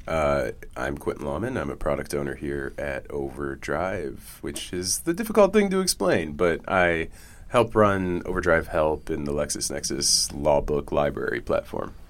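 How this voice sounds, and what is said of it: Unusually deep, under-the-weather voice. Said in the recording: “He's a little under the weather ... My voice is a little extra deep today”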